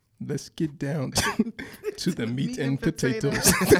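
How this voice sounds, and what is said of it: Imitates another person's voice. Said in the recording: “Do your best impression of me.”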